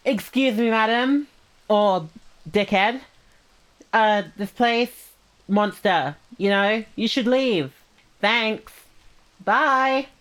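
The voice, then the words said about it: Put-on girl voice. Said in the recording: “big girl voice”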